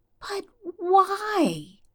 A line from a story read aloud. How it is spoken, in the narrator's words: Stiles whines